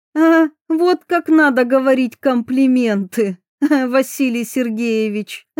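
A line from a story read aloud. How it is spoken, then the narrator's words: Pleased laughter. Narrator (Russian): Засмеялась довольная Диана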